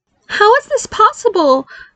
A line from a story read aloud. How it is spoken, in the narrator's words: Barry cried